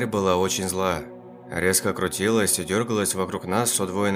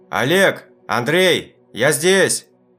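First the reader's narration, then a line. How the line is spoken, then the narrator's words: Shouting. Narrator (Russian): Я прокричал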